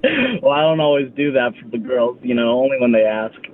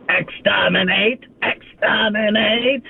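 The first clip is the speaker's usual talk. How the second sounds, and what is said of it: Dalek impression. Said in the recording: “do an impression of the Daleks”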